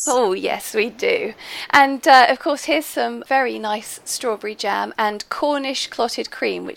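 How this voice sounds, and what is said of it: Husky, slightly hoarse voice. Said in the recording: “I'm sorry my voice is sounding a bit husky. I'm not contagious anymore”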